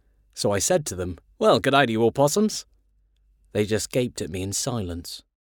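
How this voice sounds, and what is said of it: Put-on Australian accent. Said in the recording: “I start talking in an Australian accent.”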